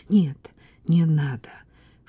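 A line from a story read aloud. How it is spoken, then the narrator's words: Cautious level-headed whisper. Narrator (Russian): шептала, не терявшая головы по-крестьянски, осторожная Таня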